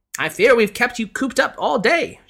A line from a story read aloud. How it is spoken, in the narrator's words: she exclaimed